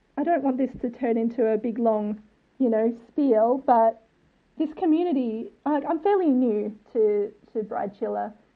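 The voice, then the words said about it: Australian accent. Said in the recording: “I'm from Australia, as you can tell from my accent”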